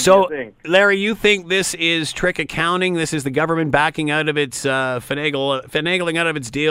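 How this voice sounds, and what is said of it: Usual voice. Nothing is said of it.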